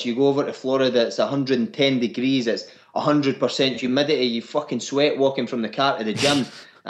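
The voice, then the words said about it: Strong Scottish accent. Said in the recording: “your accent ... They can't fucking understand the word I say.”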